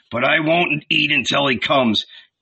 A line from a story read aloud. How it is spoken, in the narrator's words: grumbled